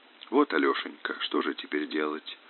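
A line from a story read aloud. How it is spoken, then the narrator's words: Barely audible. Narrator (Russian): Чуть слышно сказала Олеся Григорьевна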